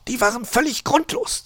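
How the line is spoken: Hissed reply. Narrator (German): zischte Frau Elster zurück

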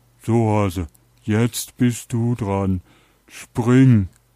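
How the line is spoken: Calling out. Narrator (German): der Hund rief

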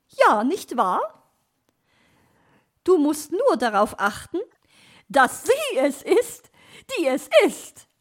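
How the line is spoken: Laughing. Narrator (German): lachte sie

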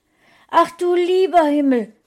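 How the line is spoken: Exclaiming. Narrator (German): rief Frauchen aus

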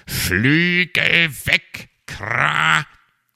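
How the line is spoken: Croak from behind. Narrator (German): krächzte es hinter ihm

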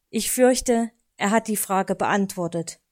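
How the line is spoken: Sigh. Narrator (German): seufzte er dann

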